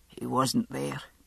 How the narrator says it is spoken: he said, in his muffled, rasping stranger's voice

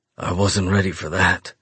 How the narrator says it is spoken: I say in a hoarse voice, my legs actually shaking and my balls aching

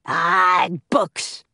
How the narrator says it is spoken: growled Cap'n Bones

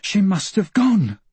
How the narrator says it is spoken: Michael panted

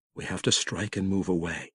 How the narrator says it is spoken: he whispered

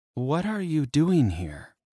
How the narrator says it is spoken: she asked, her voice quiet

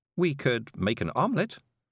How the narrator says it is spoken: said Miss Level cheerfully

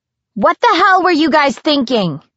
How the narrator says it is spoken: yelled

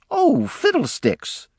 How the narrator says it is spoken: she exclaimed, seeing how many had turned out to meet her

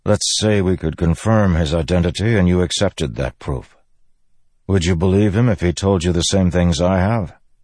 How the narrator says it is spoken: Kadash sighed

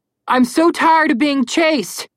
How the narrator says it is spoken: Connor yelled

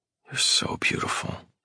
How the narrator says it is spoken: I whisper

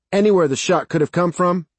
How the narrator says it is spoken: Sarge shouted

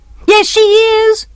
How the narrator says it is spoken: shouted Francis

